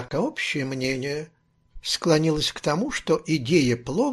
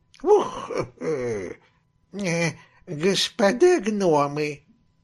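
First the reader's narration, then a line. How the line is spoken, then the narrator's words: Slow toothless mumble. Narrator (Russian): медленно прошамкала она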